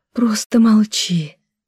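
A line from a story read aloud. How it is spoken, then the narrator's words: Pleading. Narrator (Russian): взмолилась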